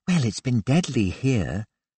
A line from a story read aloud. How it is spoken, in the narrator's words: Melissa whispered